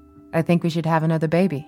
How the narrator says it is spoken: he said

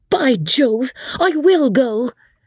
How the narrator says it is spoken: screamed out George

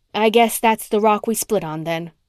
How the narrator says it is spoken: Rhoda said coldly

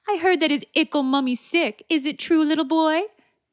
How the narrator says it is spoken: Thomas taunted

